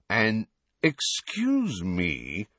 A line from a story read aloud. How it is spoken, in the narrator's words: said Malfoy in a sneering voice